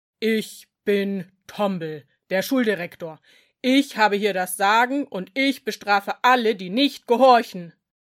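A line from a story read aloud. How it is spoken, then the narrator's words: Troll's booming voice. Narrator (German): Der Troll mit der riesigen Nase sagte dann mit dröhnender Stimme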